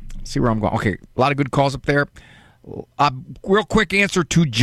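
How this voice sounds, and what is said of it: Usual voice. Nothing is said of it.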